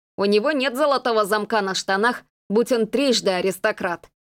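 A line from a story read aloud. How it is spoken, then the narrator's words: Snorting smirk. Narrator (Russian): хмыкнул Десс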